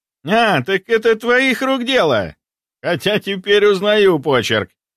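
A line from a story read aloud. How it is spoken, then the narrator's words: Chuckle. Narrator (Russian): хохотнул парень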